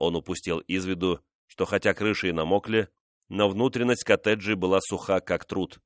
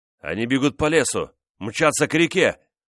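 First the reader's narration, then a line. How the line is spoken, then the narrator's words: Frightened shout. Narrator (Russian): в испуге крикнул де Котина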